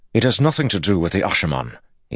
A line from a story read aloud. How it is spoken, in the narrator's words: snapped